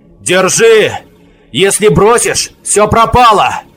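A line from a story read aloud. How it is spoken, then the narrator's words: Shouted. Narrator (Russian): крикнул Аворон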